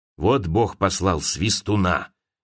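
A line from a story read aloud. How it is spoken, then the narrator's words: Spoken in an undertone. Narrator (Russian): говорила она вполголоса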